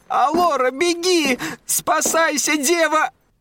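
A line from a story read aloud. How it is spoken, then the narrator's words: Servant screaming. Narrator (Russian): Служанка закричала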